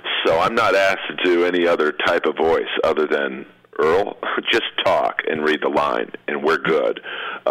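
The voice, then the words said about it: Monotone, flat speaking voice. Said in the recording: “my voice is very monotone. There's not a lot of level to it”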